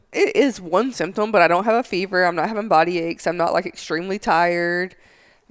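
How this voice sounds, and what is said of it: Scratchy, slightly hoarse voice. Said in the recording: “If my voice is crazy, guys, I'm just not feeling 100%. My throat's getting a little scratchy.”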